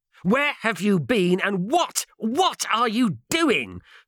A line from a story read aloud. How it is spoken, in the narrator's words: Turlow spluttered angrily